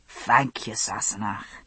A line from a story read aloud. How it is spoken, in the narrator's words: he said, wheezing slightly